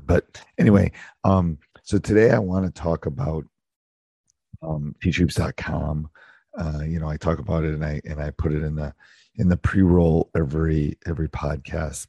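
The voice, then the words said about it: Unusually deep, worn-out voice. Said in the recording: “apologize for my voice. You can definitely tell it is the end of the season ... my deeper voice has already gotten deeper”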